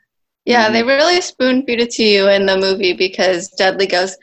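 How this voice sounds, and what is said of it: Usual voice. Nothing is said of it.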